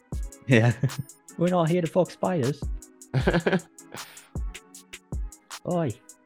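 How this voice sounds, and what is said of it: Put-on Australian accent. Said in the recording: “in an Australian accent.”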